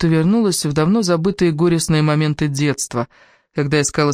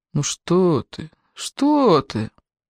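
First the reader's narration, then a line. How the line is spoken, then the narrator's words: Mumbling. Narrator (Russian): бормоча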